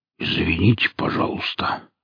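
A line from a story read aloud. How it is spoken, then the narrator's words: Belated mumble. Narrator (Russian): как-то запоздало промямлил сталкер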